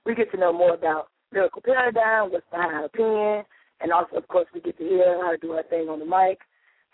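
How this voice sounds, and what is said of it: Strained, hoarse voice. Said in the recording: “My voice is a little bit shot. I've been straining it all week ... the way that I am sounding tonight”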